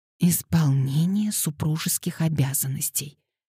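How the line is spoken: Embarrassed whisper. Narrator (Russian): шепотом объяснила Хелен, покраснев еще больше

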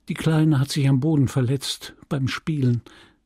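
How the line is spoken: Gentle voice. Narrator (German): sagte Emma mit sanfter Stimme

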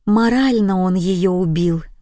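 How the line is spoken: Sighed. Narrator (Russian): вздохнула

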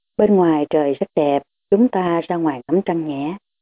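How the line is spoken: Soft, gentle, unhurried. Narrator (Vietnamese): Chàng nhỏ nhẹ từ tốn nói

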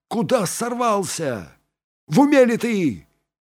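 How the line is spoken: Shouted. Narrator (Russian): крикнул ему Фанфан

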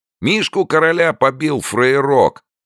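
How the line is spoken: Crowd yelling. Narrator (Russian): орали со всех сторон

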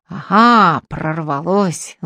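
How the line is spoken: Ominous, through teeth. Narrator (Russian): зловеще процедил он

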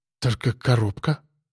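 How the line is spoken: Woman muttering. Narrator (Russian): пробормотала женщина

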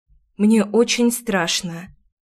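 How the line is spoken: Confessing with heavy sigh. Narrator (Russian): призналась и тяжело вздохнула

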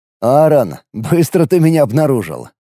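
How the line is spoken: Smirking grunt. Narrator (Russian): хмыкнул

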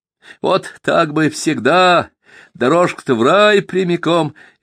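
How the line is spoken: Cheerful exclamation. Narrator (Russian): весело воскликнул Каменев

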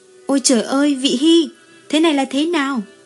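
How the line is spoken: Frightened cry. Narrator (Vietnamese): Như Phi sợ hãi kêu lên

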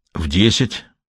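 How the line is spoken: Hoarse, recovering composure. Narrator (Russian): хриплым голосом ответил он, стараясь исправить впечатление от своего неожиданного вскрика

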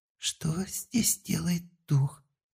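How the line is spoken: Shocked whisper. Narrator (Russian): В шоке прошептала слуга

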